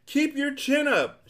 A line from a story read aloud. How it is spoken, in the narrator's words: shouted the humbug